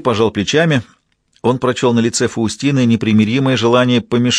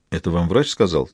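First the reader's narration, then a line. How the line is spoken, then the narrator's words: Quiet question. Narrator (Russian): тихо спросил Пиротти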